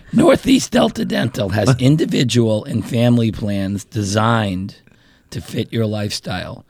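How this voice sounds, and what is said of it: Hoarse, raspy put-on voice. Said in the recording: “I got to warm up my laryngitis voice.”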